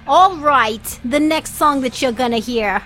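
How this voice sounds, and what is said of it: Put-on accent. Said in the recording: “I don't know why I switched to an accent”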